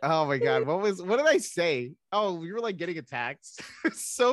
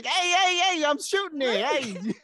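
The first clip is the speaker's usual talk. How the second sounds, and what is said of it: Put-on Brooklyn accent, Joey Wheeler. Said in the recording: “I was doing a Brooklyn accent the whole time... my Joey Wheeler Brooklyn accent”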